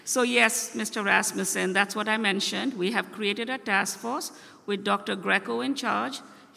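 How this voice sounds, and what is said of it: Speaks with a non-native accent. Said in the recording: “I do have an accent”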